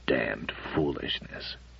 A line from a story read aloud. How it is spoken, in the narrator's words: Matthew muttered from behind his newspaper